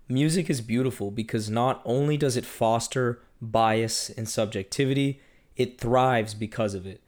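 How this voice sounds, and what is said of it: Rough, congested-sounding voice. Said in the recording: “blame the Kendrick concert in Toronto and a cold that I'm getting over for why my voice sounds the way it does”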